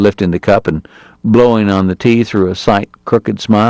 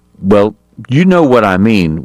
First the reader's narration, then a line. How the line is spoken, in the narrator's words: Wyatt said irritably